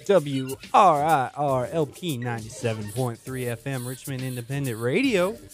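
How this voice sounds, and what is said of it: Polished radio announcer voice. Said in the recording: “That was a quality radio voice.”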